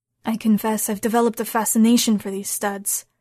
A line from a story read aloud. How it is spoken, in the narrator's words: Marco said in a heavy voice